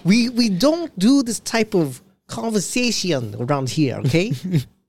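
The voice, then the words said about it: Put-on African-Russian mixed accent. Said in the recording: “Your fucking accents are... It's like the African guy mixed with a little tiny bit of Russian.”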